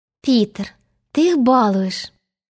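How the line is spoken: Mock sigh. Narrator (Russian): притворно вздохнула Венди

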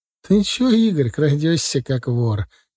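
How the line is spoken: Mother's warm laugh. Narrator (Russian): тепло рассмеялась мама

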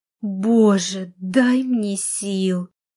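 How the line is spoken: Moaned. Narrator (Russian): простонала

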